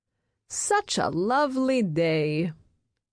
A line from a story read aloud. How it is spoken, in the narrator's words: says Amy's grandmother, Beatrice, cheerfully